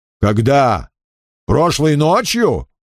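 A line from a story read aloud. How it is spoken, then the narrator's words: Stern question. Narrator (Russian): строго спросил Крэмер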